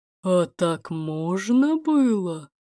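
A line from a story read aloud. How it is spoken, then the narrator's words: Clarifying in rough bass. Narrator (Russian): уточнила грубым басом Варвара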